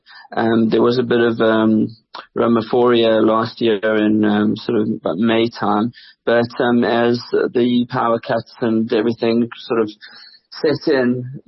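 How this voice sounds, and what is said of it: South African accent. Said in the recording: “People can hear from your accent that you are South African”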